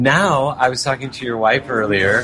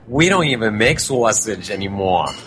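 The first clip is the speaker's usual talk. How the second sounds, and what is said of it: Heavy New York accent. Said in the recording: “She's from New York, too. And she's got the heavy accent.”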